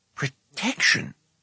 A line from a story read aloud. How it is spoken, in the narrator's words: Fluda muttered under his breath